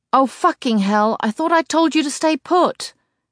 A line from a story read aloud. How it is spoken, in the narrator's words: he shouts, fixing Kate with a furious glare